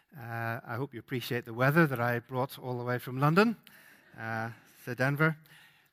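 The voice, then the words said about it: Faded Northern Irish accent. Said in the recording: “That's the accent, or at least that's the remains of the accent, is that I'm Northern Irish”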